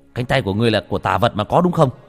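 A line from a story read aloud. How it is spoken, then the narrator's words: Shouted. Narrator (Vietnamese): Bách Việt quát lên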